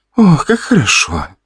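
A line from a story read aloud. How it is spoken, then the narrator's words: Young woman moaning. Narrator (Russian): простонала девушка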